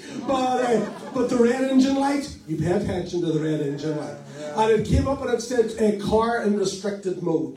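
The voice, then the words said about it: Northern Irish accent. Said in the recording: “everything from Northern Ireland sounds like R, if you hear my accent.”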